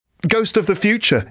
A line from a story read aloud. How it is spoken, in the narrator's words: he exclaimed